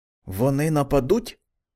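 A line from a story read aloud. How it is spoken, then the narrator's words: Frightened whisper. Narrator (Ukrainian): прошепотів зляканий голос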